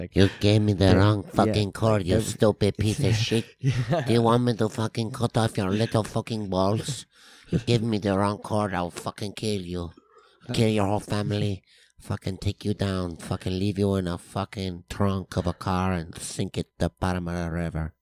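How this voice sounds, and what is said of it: Aggressive put-on accent. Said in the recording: “That's a nice accent, man.”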